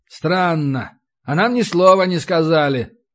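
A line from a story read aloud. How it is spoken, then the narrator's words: Skeptical snort. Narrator (Russian): хмыкнул я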